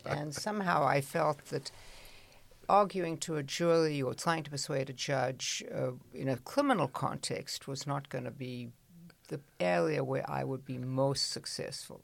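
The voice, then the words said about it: Non-American accent, sounds English. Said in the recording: “I, as you can hear, speak in an accent which Americans assume to be English. Of course, it's not.”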